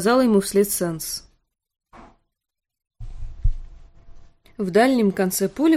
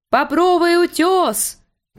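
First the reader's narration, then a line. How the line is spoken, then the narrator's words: Shrill childish shout. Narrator (Russian): прокричал он тонким ребячьим голосом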